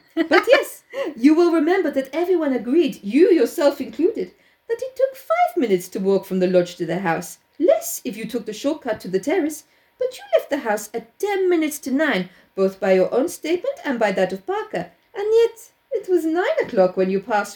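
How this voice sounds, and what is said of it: Poirot's Belgian accent. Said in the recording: “Do I do it all in the Belgian accent ... we're going Belgium.”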